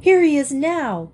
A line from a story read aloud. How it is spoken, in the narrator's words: cried Dan, waving excitedly